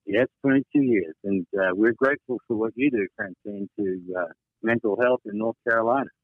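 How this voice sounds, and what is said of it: Australian accent. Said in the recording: “where is that accent from? ... I'm a refugee from Australia.”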